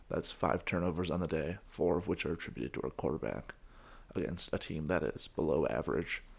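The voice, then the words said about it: Raspy voice. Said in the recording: “My raspy voice is the nature of shouting things”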